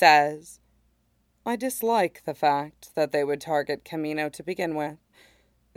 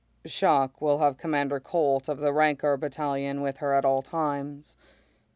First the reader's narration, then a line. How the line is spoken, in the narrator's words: Mace says evenly